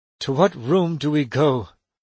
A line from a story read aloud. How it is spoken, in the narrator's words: Watts asked anxiously